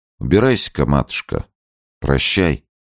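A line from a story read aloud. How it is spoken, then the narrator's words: Calm. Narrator (Russian): спокойно сказать ей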